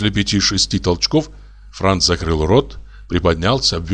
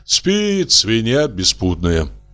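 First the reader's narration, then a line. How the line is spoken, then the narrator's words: Sighing. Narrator (Russian): вздохнул Урбенин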